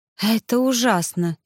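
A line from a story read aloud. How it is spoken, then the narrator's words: Faint breathy whisper. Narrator (Russian): еле выдохнула я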